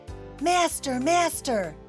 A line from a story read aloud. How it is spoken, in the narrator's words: the harp called out